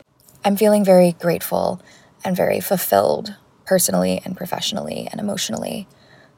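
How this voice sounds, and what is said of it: Slightly rough, tired voice. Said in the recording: “You can tell my voice is a little bit rough right now. I have not slept enough”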